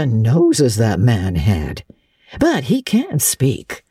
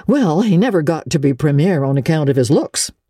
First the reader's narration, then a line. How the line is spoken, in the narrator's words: said Marilla